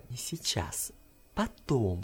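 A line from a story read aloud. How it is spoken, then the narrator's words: Breathless stifled whisper, suppressing laughter. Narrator (Russian): шепнула Санока задыхающимся сдавленным голосом, будто едва удерживалась от хохота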